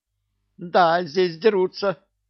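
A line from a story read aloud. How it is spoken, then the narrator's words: Squealing. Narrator (Russian): повизгивала Синицына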